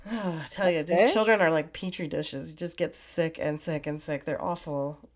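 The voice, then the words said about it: Sick, under-the-weather voice. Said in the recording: “I'm still like under the weather, as you can hear by my voice.”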